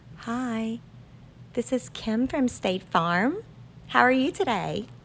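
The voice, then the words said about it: Polished customer-service phone voice. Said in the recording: “phone voice”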